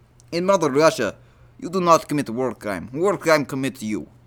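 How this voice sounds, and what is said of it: Put-on Russian accent. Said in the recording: “my Russian impression... I'm pretty good”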